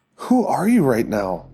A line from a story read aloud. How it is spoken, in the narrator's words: Marie asked